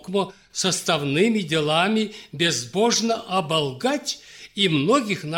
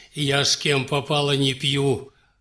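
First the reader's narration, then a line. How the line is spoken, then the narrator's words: Scoffing snort. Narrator (Russian): хмыкнул князь Иван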